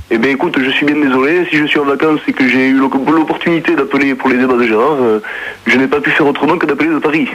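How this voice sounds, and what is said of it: Put-on southern French accent. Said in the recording (French): “tu prends pas ton accent marseillais ... tu as l'accent marseillais ... j'ai l'accent toulousain”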